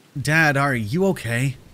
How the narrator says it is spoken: I ask, trying to keep my voice steady

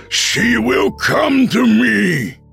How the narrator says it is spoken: he shouted

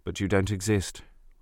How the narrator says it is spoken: Robert said sadly

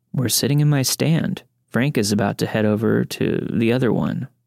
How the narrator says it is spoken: he says

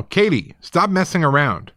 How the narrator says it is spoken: my dad came through the back door and we heard him yell

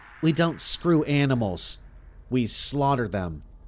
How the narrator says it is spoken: she said

